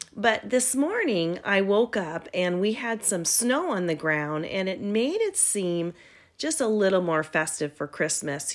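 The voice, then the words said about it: Scratchy, hoarse voice. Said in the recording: “my voice sounds a little bit different ... my voice is a little bit scratchy today”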